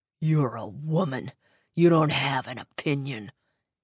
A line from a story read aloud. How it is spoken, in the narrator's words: hissed